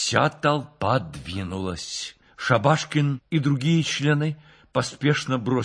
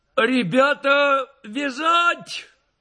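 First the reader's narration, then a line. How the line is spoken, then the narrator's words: Shouted. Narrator (Russian): закричал тот же голос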